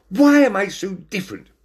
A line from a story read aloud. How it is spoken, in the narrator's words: Binnicky shouted